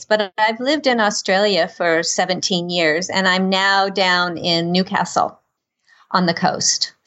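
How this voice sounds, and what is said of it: American accent. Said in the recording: “you can tell from my accent that I'm actually from the United States”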